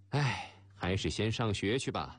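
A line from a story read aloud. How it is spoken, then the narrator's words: Sighing inner thought. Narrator (Chinese): 狄小龙叹了口气，心想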